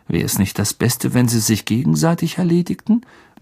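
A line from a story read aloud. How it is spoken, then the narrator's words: Murmur into ear. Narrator (German): murmelte Ron Harry ins Ohr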